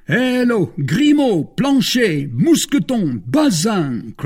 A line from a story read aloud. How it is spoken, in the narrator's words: cried the 4 young men, calling their lackeys